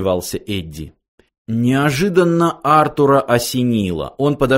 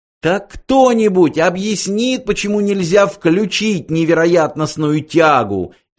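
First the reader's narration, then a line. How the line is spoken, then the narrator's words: Hysterical shouting. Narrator (Russian): истерически закричала Триллиан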